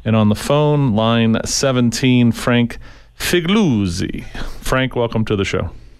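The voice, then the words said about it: Put-on Italian accent. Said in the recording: “the little addition of the Italian accent there”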